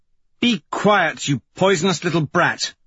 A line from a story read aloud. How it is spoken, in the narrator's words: Mustang snaps